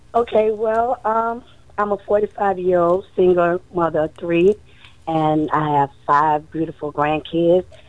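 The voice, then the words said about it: Hoarse voice. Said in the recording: “excuse my voice, I'm a little hoarse ... with this pollen and all that good stuff”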